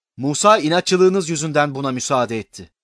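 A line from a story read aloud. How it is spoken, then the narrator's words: Plain. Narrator (Turkish): dedi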